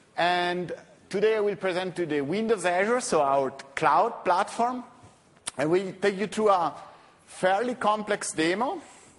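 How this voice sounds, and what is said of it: Slight Italian accent. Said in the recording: “You can slightly hear from my slight Italian accent.”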